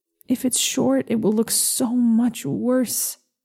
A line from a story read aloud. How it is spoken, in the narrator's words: I mumble into my sleeve